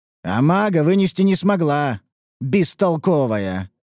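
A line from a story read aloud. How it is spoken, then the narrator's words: Almost growling with indignation. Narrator (Russian): Высокая чуть ли не зарычала от негодования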